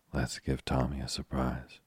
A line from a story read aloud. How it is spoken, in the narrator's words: murmured Tuppence